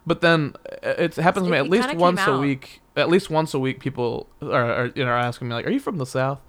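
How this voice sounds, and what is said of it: Slight Southern twang. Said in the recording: “I have a Texas accent ... I have just a twang, a little bit of a twang”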